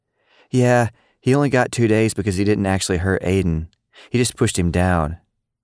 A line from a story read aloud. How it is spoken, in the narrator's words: Lily answered